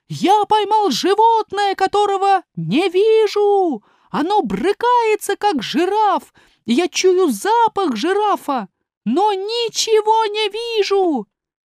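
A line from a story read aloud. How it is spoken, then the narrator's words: Shouting. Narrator (Russian): Эфиоп закричал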